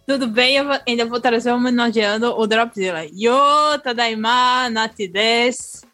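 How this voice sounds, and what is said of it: Northeastern Brazilian accent. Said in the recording (Portuguese): “traga o seu sotaque nordestino”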